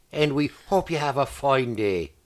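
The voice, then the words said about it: Strong put-on Northern Irish accent. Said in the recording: “I would like to speak Northern Irish ... Very strong accent.”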